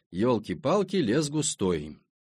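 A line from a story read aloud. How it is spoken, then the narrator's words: Muttered aloud. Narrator (Russian): вслух пробормотал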